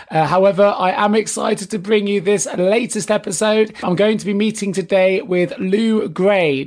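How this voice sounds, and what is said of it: Congested, croaky voice from a cold. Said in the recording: “As you can probably hear in my voice, I am suffering from a little bit of a man cold. So apologies if I sound like a frog underwater.”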